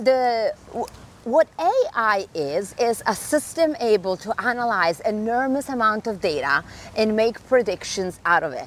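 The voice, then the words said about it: Accented English. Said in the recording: “my accent”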